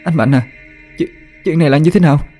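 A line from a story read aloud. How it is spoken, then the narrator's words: Stammering, frightened. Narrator (Vietnamese): miệng thì lắp bắp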